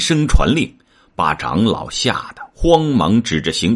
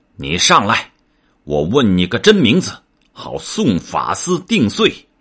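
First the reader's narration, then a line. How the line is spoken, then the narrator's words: Angry. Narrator (Chinese): 太子怒道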